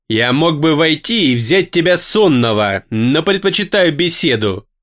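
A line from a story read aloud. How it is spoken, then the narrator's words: Growling. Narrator (Russian): прорычала ночь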